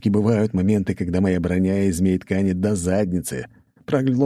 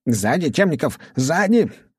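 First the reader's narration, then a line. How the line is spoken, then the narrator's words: Yelling at top of lungs. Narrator (Russian): орал мне во всю глотку Андромед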